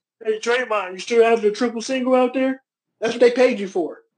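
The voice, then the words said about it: Imitates another person's voice. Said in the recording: “you in my Charles Barkley voice.”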